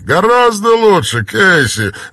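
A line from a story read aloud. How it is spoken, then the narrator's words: Laughing. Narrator (Russian): рассмеялся Барр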